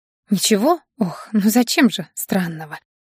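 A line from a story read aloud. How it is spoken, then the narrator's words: Exhaled. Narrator (Russian): выдохнула Аня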